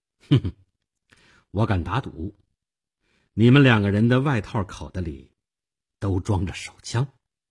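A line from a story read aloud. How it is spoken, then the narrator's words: Faint smile. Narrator (Chinese): 我淡淡的一笑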